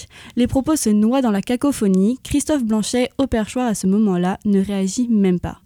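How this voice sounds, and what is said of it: Slight Marseille accent. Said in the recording (French): “avec une pointe d'accent marseillais”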